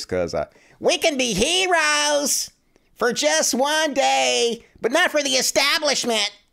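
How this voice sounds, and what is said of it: Imitates another person's voice. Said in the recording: “in my Jimmy Dore voice,”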